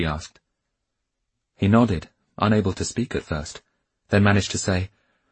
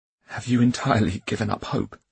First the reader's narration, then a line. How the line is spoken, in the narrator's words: He asked in a strangled voice